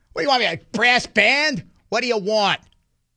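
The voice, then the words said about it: Put-on Boston accent. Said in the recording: “I love the Boston accent. ... You could just see both of those guys in Southie going at it.”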